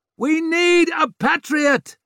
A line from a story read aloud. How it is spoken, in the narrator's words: someone was shouting